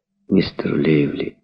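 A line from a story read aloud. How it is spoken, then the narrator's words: Tender. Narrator (Russian): сказала она ласково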